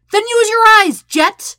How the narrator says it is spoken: Sokka nearly yells

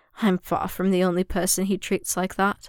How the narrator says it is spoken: Obi-Wan laughed dryly

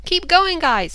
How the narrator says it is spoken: Mike yelled after them

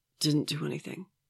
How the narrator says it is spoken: he croaks

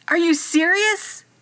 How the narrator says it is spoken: He shouted

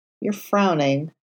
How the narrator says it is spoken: Matt muttered

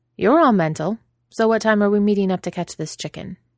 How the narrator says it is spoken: she says, in her usual practical tone

